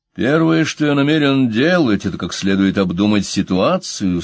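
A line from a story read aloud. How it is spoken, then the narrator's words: Grim, to himself. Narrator (Russian): сказал он себе мрачно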